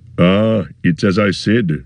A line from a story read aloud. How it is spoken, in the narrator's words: growled Gimli